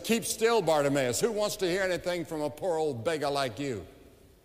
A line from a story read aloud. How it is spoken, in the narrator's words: the more they rebuked him, the more he cried out